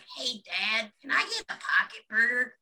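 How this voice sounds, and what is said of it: Scratchy young boy cartoon voice. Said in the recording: “a really good impersonation of the little uh, the son from King of the Hill... my Bobby Hill impression... I hope my voice is scratchy enough”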